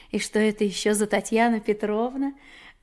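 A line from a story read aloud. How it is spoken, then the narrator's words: Laughing. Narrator (Russian): Маша засмеялась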